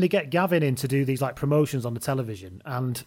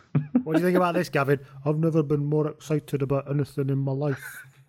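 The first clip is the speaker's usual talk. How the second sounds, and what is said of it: Flat, boring impression of another person. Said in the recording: “he's really boring ... my Gavin Hastings impression”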